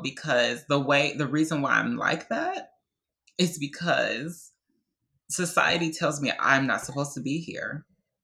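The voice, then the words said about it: Emotional voice. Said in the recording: “I'm getting emotional... I'm getting emotional”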